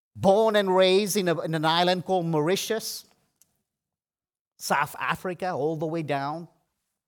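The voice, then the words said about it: Funny non-native accent. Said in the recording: “I speak with a funny accent because I wasn't from here.”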